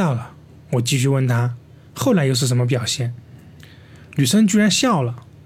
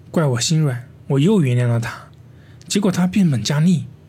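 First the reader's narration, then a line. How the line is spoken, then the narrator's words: Sighing. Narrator (Chinese): 女生叹了一口气说道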